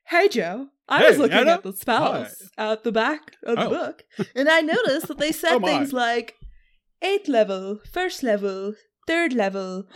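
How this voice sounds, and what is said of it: Put-on fake character voice. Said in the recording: “I'm putting on my fake voice.”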